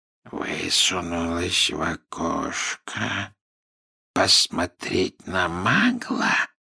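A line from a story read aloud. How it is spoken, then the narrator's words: Quiet questioning. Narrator (Russian): тихо переспросил Мракс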